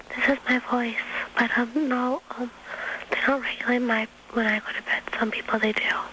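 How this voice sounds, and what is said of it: Very quiet, whisper-like voice. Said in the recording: “It sounds like it's, you know, lights out or something. ... you're whispering.”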